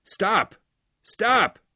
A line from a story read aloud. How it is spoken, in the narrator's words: Hal cried